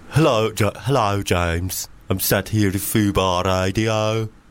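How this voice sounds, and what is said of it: Put-on Birmingham English accent. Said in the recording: “Birmingham, England. ... That's quite good.”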